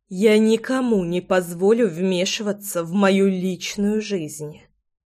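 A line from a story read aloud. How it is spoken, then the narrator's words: Crisp, through clenched teeth. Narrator (Russian): четко процедила я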